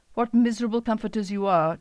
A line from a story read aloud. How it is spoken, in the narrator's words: Job exclaimed